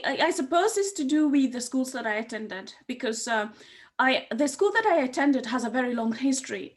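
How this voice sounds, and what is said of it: British-sounding accent. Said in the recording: “What happened to your Kenyan accent? You sound so British.”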